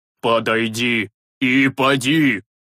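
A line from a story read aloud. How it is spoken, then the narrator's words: Menacing priest's command. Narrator (Russian): грозно велел священник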